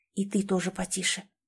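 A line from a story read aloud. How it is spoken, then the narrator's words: Barely audible whisper. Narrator (Russian): еле слышно зашептала Тамрета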